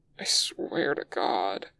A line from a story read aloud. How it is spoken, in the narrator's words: he groans